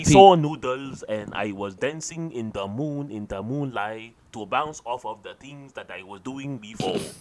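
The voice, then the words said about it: Weak put-on Chinese accent. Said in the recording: “It's like a Cantonese accent ... It's a very weak Cantonese ... You're doing this accent ... a racist Chinese accent ... Because it just is a Chinese accent”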